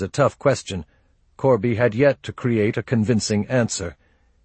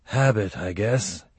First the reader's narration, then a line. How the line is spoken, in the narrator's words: he said, weakly